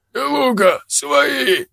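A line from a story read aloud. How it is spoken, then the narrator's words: Hoarse croak. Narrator (Russian): прохрипел он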